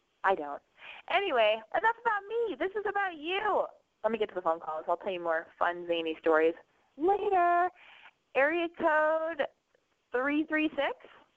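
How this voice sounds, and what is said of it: Nasal, congested voice. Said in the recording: “I sound really nasally because I'm sick.”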